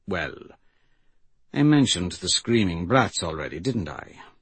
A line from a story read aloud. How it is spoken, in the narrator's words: He sighed